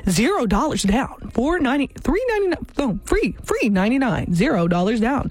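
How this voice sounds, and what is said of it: Announcer-style advertisement voice. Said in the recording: “put on my advertisement voice?”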